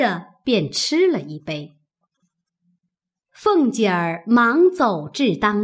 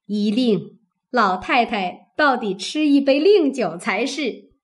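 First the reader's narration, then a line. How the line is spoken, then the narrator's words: Laughing. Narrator (Chinese): 薛姨妈点头笑道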